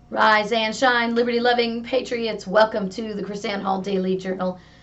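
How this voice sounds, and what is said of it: Strained voice, a little off. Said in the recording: “Excuse my voice ... a little bit here today ... we had an exercise in voice amplification ... my voice is a little bit off today”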